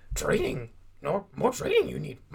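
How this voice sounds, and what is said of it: Yoda-style character voice impression. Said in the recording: “Is Yoda your best impression?”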